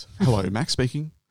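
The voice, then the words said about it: Put-on polite phone voice. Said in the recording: “That's my phone voice.”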